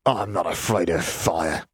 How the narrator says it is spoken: Lestrange spat

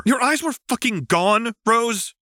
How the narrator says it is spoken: John shouted, sounding uncharacteristically animated

